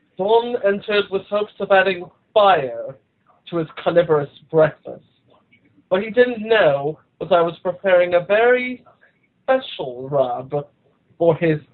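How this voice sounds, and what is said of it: Put-on British accent. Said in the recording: “let me turn on my British accent here”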